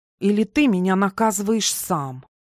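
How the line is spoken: Obedient, venomous hiss. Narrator (Russian): послушно повторила Малески, но голос больше походил на шипение гадюки

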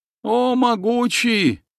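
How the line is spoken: Devoted wail. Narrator (Russian): преданно завопив

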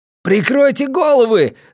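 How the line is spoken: Yelling. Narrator (Russian): завопил Оша

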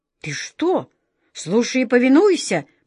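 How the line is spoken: Sharp shout. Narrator (Russian): прикрикнул на него волшебник Алёша

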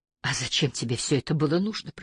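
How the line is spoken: Whisper. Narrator (Russian): прошептала она

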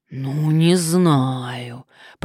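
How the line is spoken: Drawling. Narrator (Russian): протянул хозяин заведения

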